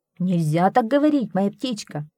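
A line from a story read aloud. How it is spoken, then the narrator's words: Angry. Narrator (Russian): сердито ответил Чан Цзяо Чань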